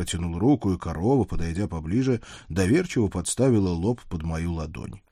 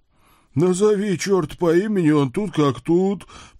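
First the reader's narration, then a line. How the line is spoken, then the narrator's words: Moaned. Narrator (Russian): простонал наш младший сотрудник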